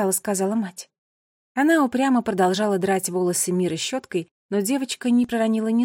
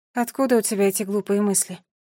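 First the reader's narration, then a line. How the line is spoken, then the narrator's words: Sighing mother. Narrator (Russian): вздохнула мать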